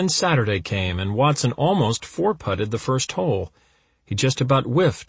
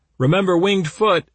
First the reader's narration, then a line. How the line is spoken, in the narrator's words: they shouted